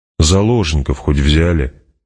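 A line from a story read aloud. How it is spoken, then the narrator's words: Grumbled. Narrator (Russian): проворчал император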